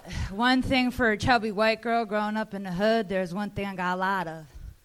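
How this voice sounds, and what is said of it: New Jersey accent. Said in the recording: “in case you can't tell by the accent, I'm from New Jersey”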